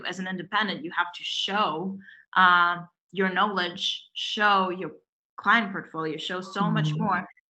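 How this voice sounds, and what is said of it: Non-native English accent. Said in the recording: “being an immigrant woman, where English is your second language ... still, you can hear my accent.”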